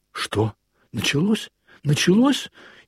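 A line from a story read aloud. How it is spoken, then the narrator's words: Frightened. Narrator (Russian): испуганно проговорил он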